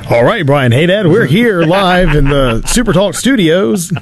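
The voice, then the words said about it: News anchor broadcast voice. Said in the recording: “do the entire interview in the news voice”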